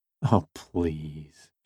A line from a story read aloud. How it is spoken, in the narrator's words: she sighed